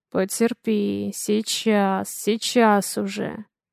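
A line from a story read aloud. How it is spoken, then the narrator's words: Muttering. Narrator (Russian): Бормочет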